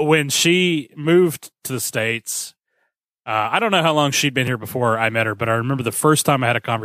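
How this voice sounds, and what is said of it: Usual voice. Nothing is said of it.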